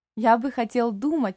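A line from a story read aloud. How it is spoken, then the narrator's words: Joyful old man. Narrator (Russian): радостно ответил старик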